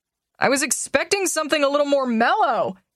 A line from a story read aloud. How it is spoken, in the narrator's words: he yells